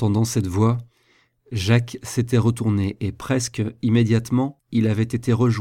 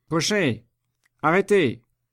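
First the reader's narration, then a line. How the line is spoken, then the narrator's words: Shouted. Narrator (French): cria Chaise-Martin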